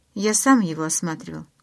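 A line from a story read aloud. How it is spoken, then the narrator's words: Plain. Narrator (Russian): сказал Карлайл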